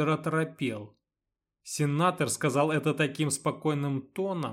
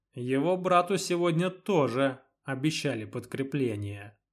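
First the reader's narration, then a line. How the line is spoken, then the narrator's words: Calm remark. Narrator (Russian): спокойно заметил на это Магон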